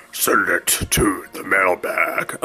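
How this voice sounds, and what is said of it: Poor impression of a dragon character. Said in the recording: “going to do a Smaug impersonation ... that was horrible”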